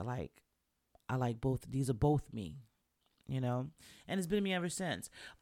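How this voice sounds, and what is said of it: New York accent. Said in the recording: “a lot of people say they could still hear my New York accent now”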